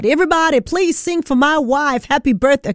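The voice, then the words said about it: Imitates another person's voice. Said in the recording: “doesn't have a southern accent. Okay, I can't do the Jay-Z accent”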